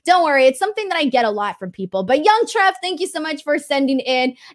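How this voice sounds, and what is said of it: Loud, high-energy speaking voice. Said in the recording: “why are you yelling? ... I'm like super loud ... I'm a loud person ... I think I just have too much energy ... Lower your volume so that I don't blow your eardrums out”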